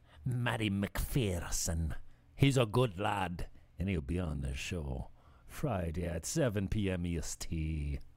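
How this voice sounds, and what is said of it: Put-on Scottish accent. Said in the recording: “I'm working on my accent. ... Is it Scottish or is that Irish? ... he's a Scotty”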